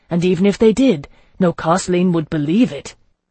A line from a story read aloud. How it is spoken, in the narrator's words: he gasped